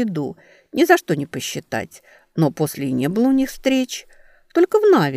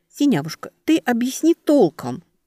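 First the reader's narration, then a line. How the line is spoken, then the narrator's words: Pleading. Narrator (Russian): взмолилась Велька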